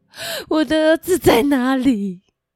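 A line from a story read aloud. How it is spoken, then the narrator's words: Despairing sobbing. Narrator (Chinese): 她绝望的哭泣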